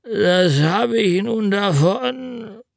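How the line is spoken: Groaning. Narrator (German): stöhnte er

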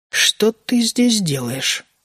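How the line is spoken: Quiet but distinct. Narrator (Russian): спросила она тихо, но очень отчетливо

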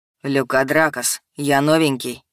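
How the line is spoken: Quiet low voice. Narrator (Russian): сказал он тихим, низким голосом

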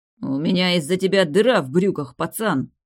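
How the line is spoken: Growling. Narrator (Russian): прорычал он

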